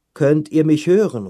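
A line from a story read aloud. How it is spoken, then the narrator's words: Repeated calling. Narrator (German): ruft er immer wieder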